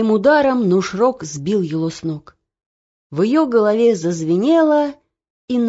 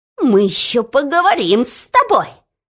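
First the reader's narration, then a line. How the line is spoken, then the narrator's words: Angry squeak. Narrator (Russian): Злобно пропищал министр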